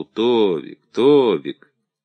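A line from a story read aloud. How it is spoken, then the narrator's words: Calling gently. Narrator (Russian): ласково зову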